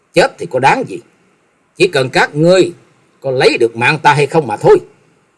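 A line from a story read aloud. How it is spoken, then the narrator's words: Angry, through gritted teeth. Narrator (Vietnamese): Trần Lâm tức giận nghiến răng nói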